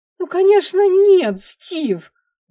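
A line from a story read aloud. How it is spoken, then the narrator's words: Desperate shout. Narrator (Russian): закричала Энди в отчаянии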